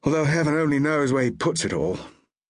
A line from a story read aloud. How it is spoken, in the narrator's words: He sighed